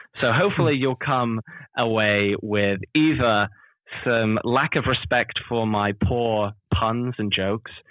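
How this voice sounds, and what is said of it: British accent. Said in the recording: “a sometimes difficult to understand British accent”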